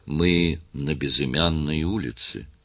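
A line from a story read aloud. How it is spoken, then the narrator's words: Quiet speech. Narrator (Russian): инспектор тихо сказал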